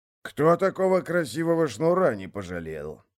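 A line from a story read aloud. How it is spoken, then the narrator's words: Snorting. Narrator (Russian): хмыкнул Годи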